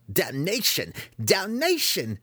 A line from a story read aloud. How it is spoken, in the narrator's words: came the squeal from inside the tower